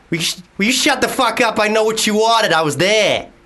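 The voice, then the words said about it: Put-on Boston American accent. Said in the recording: “American accent ... Boston ... Right, that's actually quite good.”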